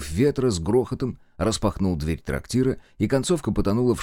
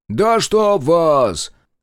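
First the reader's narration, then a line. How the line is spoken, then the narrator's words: Distant yelling crowd. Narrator (Russian): заорали с дальних столов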